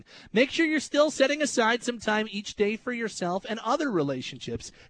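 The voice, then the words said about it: Midday radio announcer voice. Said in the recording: “my like afternoon, my midday announcer voice”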